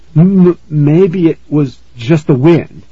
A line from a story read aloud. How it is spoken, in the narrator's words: he stammered